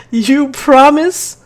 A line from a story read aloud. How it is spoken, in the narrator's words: Lucia yells out, followed by a taunting laugh